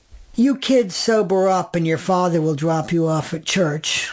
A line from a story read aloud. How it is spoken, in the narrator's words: would moan, thick-tongued